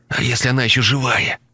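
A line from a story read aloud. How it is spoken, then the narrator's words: Strained, forced out. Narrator (Russian): выдавил Тоха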